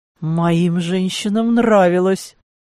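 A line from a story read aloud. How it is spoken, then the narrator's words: Near growl. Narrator (Russian): почти прорычал Клаус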